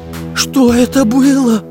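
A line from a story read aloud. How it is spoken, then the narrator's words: Trembling question. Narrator (Russian): дрожащим голосом спросил Карандаш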